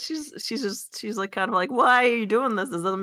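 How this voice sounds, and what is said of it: Usual voice. Nothing is said of it.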